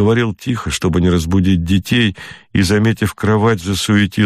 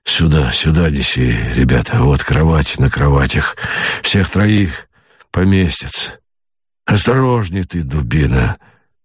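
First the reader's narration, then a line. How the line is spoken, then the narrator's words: Hissing. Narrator (Russian): Зашипел он на солдата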